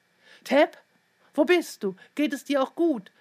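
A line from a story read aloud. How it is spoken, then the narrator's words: Woman calling out. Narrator (German): rief Frau Hansen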